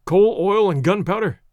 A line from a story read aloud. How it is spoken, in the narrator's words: cried Monsieur Thuran